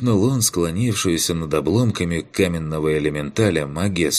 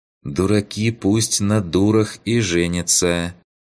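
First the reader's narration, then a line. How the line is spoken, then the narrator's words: Calm reply. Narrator (Russian): спокойно ответила та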